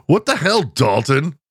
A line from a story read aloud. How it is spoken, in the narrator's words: Johnny exclaims